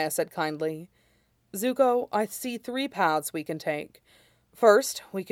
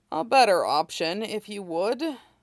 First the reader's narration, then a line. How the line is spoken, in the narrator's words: Iroh said dryly